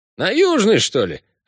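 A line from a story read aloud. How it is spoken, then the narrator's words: Snorting grunt. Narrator (Russian): хмыкнул таксист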